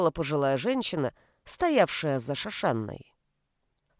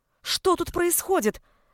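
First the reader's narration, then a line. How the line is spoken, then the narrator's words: Exclaimed. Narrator (Russian): воскликнула Шошанна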